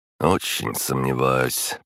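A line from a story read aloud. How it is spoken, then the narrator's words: Heir's grumble. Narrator (Russian): проворчал наследник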